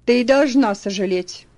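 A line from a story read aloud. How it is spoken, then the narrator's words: Rude reply. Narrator (Russian): грубо ответила мисс Дэй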